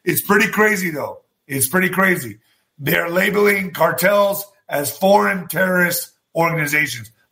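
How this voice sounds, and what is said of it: Rough, strained voice. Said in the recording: “my voice sounds like shit right now”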